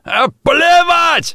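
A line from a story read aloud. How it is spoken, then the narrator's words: Howling wail. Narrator (Russian): взвыл Бартолдер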